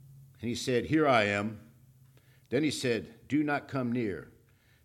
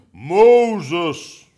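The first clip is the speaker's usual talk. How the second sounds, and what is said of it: Imitated voice of God. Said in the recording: “my God impersonation.”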